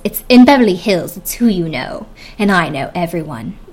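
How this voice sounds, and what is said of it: Bad put-on British accent. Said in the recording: “my horrible Lisa Vanderpump accent ... if you actually are British and that is terrible to you, sorry about it”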